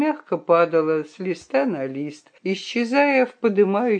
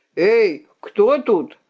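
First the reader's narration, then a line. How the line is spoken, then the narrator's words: Loud barking shout. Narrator (Russian): гаркнул цыган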